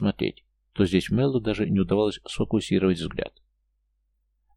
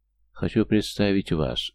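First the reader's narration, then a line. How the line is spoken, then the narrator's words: Completely calm. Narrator (Russian): совершенно спокойно начал Ротар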